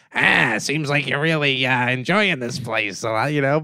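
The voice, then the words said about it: Poor imitation of a cartoon bartender. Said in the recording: “there's like a Simpsons bar, and it's Mo, the bartender ... all these people who like can't really do his voice, but you know they have to”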